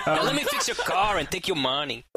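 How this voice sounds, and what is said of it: Put-on Puerto Rican accent, likely inaccurate. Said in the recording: “I don't even know if that's an accurate Puerto Rican accent. ... I'm pretty sure it's not accurate”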